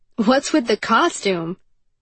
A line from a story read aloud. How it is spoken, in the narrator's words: Hirul laughed